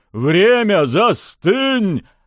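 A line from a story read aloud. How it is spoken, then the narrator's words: Barked, harsh. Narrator (Russian): рявкнул темный бог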